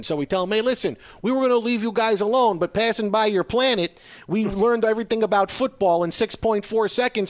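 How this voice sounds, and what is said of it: Put-on exaggerated regional accent. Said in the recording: “this crazy ass accent ... I hope this accent worked.”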